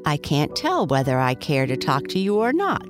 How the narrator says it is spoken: said

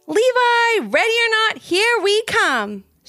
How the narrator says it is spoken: shouted Ivy

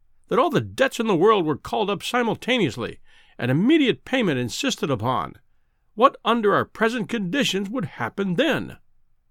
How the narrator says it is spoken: he cried, with feeble violence

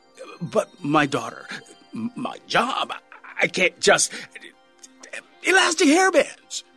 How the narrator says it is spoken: said desperately

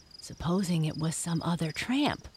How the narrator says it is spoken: whispered Jess

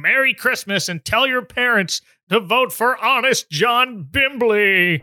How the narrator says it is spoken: the very loud mayor shouting

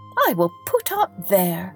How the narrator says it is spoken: he cried

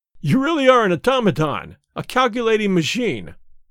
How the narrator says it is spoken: I cried

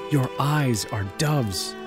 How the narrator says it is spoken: he whispered

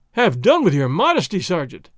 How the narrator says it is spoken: Don Diego cried

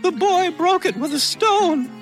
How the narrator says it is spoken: shrieked Darzee's wife

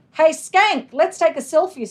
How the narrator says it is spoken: Cindy hollered like a crazy rock star

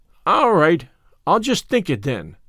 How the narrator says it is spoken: said Davy cheerfully

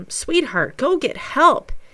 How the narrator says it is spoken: His wife, Bess, desperately urges him

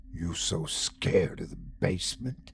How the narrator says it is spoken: he hissed

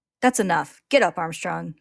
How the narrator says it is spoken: he snaps

